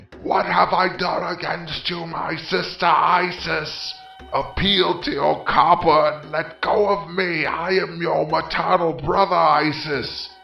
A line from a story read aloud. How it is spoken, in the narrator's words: He let out a loud shriek, saying